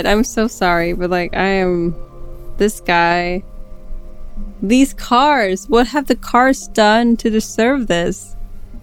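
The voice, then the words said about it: Swedish accent. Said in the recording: “my Swedish accent is showing”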